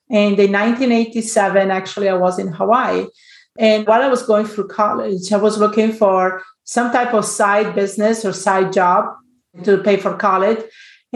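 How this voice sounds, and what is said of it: Italian accent. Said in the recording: “originally, I'm from Italy, so if you wonder about my accent”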